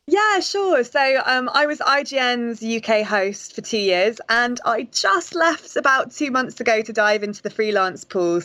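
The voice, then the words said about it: British accent. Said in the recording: “your lovely accent ... a British games journalist”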